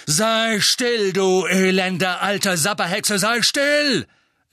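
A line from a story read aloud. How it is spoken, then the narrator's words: Thundering. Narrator (German): donnerte er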